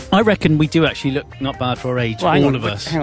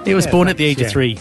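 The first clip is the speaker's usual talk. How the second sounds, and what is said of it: Put-on Irish accent. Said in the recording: “I don't know why I said that in an Irish accent.”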